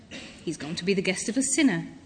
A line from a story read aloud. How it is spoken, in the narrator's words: All the people began to mutter